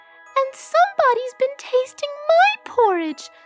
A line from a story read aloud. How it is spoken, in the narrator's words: squealed the baby bear